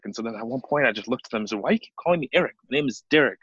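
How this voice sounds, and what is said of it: Thick accent. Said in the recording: “my thick accent”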